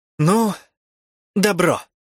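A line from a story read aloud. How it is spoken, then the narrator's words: Hoarse. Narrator (Russian): Совсем неожиданно хрипло молвил мой побратим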